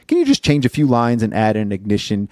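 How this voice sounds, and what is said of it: Matter-of-fact impression of a colleague. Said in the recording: “great Dan impression”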